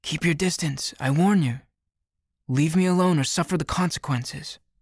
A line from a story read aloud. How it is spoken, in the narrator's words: A girl shouts